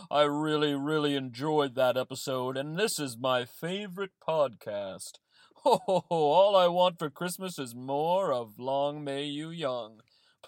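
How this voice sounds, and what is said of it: Santa Claus character voice. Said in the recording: “Santa here ... Please excuse my voice ... Ho, ho, ho!”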